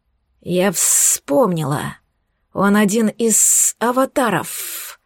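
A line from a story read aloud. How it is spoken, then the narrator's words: Hateful hiss. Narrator (Russian): с ненавистью прошипела хранительница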